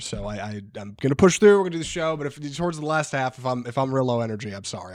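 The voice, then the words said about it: Sick, low-energy voice. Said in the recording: “I'm feeling under the weather. I might be a little low energy ... if you can't hear it in my voice, I'm feeling a little under the weather”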